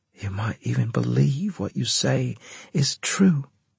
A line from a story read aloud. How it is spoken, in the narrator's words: she said almost wistfully